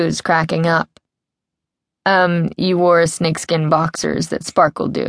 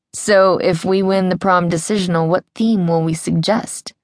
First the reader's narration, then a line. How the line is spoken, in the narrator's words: Drew asks Sam